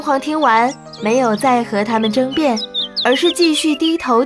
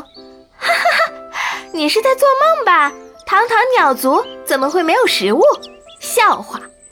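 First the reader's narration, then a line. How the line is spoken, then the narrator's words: Mocking laughter, many birds. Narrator (Chinese): 其他的鸟笑得更大声了，他们纷纷地说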